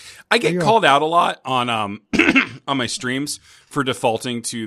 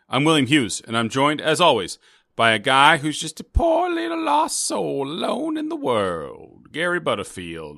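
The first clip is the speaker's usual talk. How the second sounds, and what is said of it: Southern preacher-style accent. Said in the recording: “What's this voice? I don't care for it. ... It's a preacher. ... the Frank Underwood, Kevin Spacey Southern accent ... the Southern Senator”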